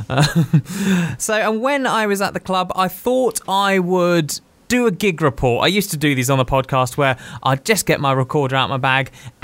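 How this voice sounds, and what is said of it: Posh English accent. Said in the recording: “translating from posh into Geordie”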